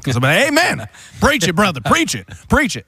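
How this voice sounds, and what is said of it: Put-on Southern accent. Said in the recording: “How did you get a southern accent?”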